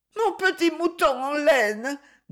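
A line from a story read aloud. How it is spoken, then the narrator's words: Child speaking, bursting into sobs. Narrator (French): dit encore l'enfant, qui, tout à coup, éclata en sanglots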